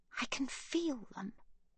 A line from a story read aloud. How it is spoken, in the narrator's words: Magda whispers